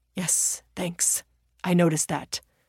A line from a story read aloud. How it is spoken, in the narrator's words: the bank robber replied through clenched teeth